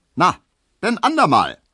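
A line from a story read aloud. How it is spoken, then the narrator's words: Cheerful call from distance. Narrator (German): rief der fröhliche Leichenkutscher zurück, denn seine Pferde waren schon indessen ein Stückchen weitergetrabt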